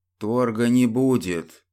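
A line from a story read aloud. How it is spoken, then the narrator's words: Through gritted teeth. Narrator (Russian): процедил престол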